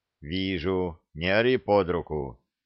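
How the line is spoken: Calm reply. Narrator (Russian): спокойно ответил Саша

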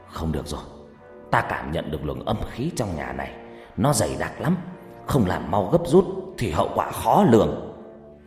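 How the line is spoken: Stern, through gritted teeth. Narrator (Vietnamese): ông trừng mắt gằn giọng

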